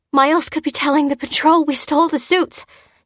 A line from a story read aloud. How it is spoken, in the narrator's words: she gasped